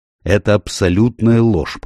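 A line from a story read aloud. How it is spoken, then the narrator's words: Growling. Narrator (Russian): прорычал он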